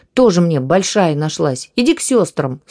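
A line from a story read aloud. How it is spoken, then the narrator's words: Angry retort. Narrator (Russian): зло бросил он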